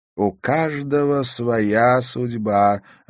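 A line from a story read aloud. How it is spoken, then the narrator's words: Plain. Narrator (Russian): ответила баронесса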